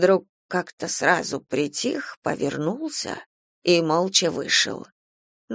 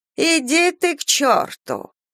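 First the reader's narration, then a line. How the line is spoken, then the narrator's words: Angry shout. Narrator (Russian): Осерчала она, да как крикнет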